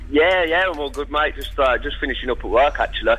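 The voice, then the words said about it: Birmingham accent. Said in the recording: “what's that accent? ... Birmingham, mate.”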